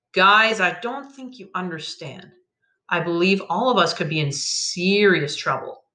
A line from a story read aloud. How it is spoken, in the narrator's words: said